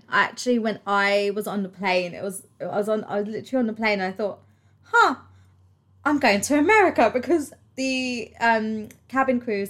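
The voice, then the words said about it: British London accent. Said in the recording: “Americans tend to quite like British accents ... it's just chavvy London accent, isn't it? I'm not that chavvy anymore.”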